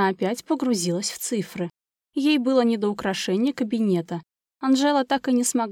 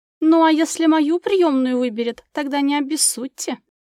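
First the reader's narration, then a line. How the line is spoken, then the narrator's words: Laughing. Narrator (Russian): засмеялась она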